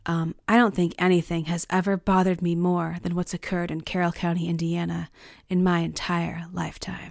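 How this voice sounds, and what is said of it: Imitates another person's voice. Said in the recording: “That's my impression of Doug Carter. It's terrible.”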